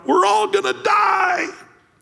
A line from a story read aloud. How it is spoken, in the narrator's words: he heard somebody yell out